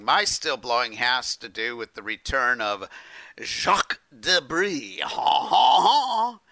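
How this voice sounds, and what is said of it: Bad put-on French accent. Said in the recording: “I'm blowing up my bad French accent”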